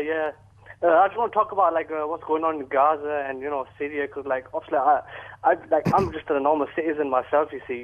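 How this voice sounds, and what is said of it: Bradford English accent. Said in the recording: “my own patch, Bradford ... Nice to hear your accent.”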